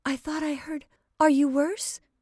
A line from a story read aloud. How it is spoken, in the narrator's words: asked anxiously